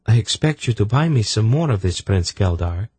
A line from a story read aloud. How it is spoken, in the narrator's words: she said firmly